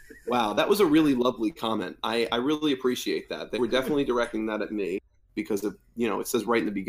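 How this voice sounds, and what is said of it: Usual voice. Nothing is said of it.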